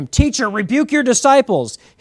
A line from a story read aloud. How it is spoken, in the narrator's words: they're yelling at him